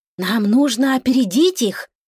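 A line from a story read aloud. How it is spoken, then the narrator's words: Quiet murmur in ear. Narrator (Russian): тихо сказал ему на ухо голубой ветер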